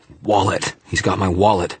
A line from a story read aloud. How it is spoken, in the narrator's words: I dragged in a breath and managed to gasp